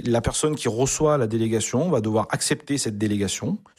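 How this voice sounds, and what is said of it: Regional French accent. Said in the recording (French): “on entend l'accent aussi depuis tout à l'heure”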